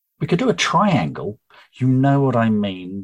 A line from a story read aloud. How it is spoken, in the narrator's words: Charlotte snapped